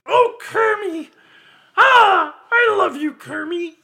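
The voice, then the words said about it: Miss Piggy character voice. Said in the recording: “Miss Piggy”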